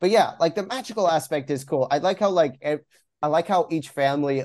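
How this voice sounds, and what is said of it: Usual voice. Nothing is said of it.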